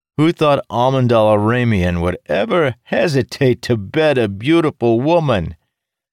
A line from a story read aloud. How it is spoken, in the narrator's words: Dougal joined the jovial outburst